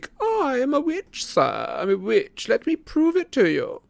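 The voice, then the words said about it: Squeaky mocking character voice. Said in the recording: “he said in a squeaky impersonation,”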